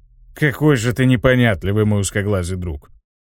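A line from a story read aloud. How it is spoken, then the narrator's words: Sighing. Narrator (Russian): вздохнул пилот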